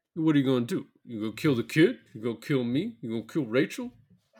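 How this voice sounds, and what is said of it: Bad Sylvester Stallone impression. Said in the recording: “do a bad impression ... Do an impression of Sylvester Stallone as John Book”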